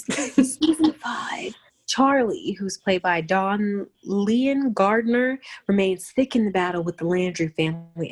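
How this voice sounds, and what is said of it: Dramatic movie trailer announcer voice. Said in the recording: “I'm trying to do the trailer voice.”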